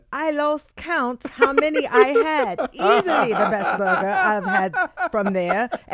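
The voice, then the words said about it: Put-on British accent. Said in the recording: “Read it with the British accent. ... my accent was bad.”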